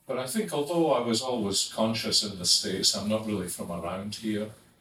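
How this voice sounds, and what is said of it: Scottish accent. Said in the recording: “returning from Scotland, when I noticed I had a different accent from everybody else.”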